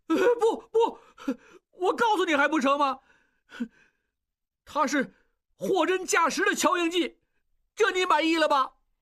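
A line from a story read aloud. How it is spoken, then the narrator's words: Crying. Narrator (Chinese): 他哭起来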